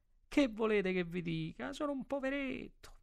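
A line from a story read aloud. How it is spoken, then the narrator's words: Whimpering. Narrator (Italian): Piagnucolò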